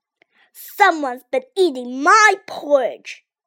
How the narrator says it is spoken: growled Big Papa Bear

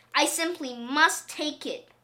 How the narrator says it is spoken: cried the very old man

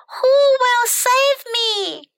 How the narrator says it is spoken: cried the pretty princess

